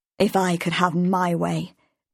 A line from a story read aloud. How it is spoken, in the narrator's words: Davidson told him bitterly